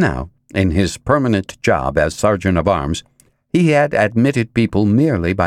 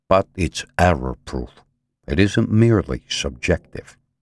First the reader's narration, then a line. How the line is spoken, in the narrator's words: Vince said quietly